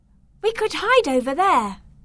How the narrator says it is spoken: cried Beatrice

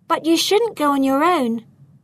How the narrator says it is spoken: She called out

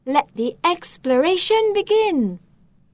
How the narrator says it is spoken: Enthusiastically exclaim

